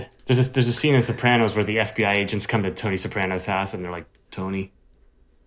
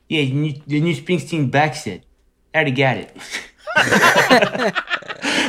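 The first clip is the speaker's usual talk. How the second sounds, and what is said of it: Poor impression of a TV character. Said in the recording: “I'm going to do a terrible impression ... I can't do it”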